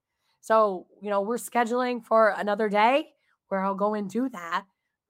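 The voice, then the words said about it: Hoarse, strained voice. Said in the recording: “I have laryngitis ... I'm having a little bit of problems with my laryngitis ... She said, yeah, I'm hearing that now.”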